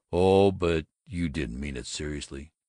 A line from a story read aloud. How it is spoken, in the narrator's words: Rather unsteadily